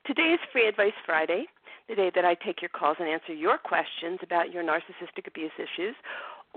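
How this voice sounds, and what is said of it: Throaty, congested voice. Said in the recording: “my sexy voice because I have something going on in my in my sinuses, and it's giving me that kind of throaty kind of voice”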